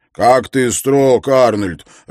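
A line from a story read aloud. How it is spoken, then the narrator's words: Laughing. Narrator (Russian): рассмеялся Харри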